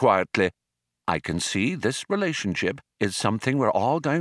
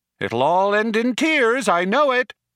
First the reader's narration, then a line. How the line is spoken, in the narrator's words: shouted Eddie after them